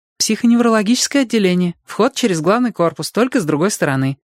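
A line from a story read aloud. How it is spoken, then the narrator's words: Joyful blurt. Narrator (Russian): радостно выпалила Робин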